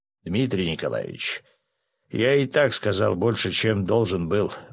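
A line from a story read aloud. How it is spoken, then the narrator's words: Gloomy remark. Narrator (Russian): мрачно заметил полковник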